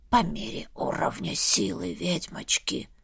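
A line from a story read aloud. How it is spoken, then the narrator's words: Whispered. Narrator (Russian): шепнул мне черепушка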